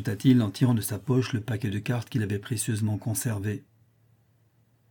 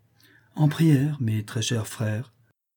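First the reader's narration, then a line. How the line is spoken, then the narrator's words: Devout tone. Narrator (French): repartit Federigo d'un ton dévot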